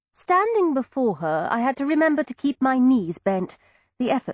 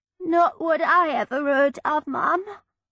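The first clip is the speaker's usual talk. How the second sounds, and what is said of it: Broad Cockney accent, sniffling. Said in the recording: “In the broadest Cockney accent I could manage, with a sniffle.”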